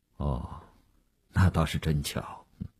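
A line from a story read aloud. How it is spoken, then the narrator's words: Flat, indifferent. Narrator (Chinese): 吴长天淡淡地说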